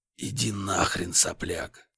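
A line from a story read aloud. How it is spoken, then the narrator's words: Hoarse exasperated interruption. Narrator (Russian): Устав терпеть, хрипло прервал я его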